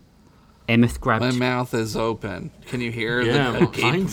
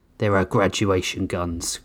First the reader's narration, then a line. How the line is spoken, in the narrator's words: Grissom growled, angrier